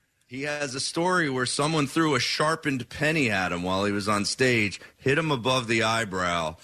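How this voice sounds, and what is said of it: Usual voice. Nothing is said of it.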